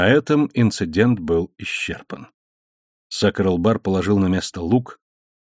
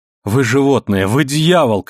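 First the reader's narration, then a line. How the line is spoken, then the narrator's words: Shouting. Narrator (Russian): кричала она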